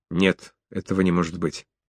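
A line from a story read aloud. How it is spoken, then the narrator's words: Broken off, faltering. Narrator (Russian): осекся, запнулся на секунду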